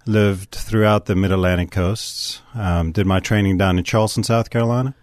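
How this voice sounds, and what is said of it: South African accent. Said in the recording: “by your accent. I don't reckon that you're from Rutgersville ... born a little south of here down in Johannesburg, South Africa”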